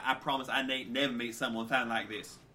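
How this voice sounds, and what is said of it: Exaggerated put-on southern drawl. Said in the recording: “You do a southern accent, and I'll do a southern accent ... Just a regular southern drawl, just kind of extended voice. You just kind of drag out some of your syllables ... trying to do his southern accent, and I do terrible”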